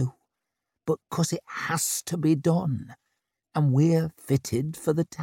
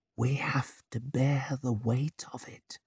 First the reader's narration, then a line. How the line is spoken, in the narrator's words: she whispered